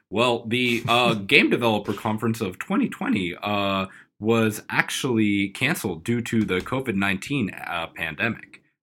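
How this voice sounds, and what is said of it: Put-on Wisconsin accent. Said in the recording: “What's this accent that's happening? ... I have a Wisconsin one. Don't you know?”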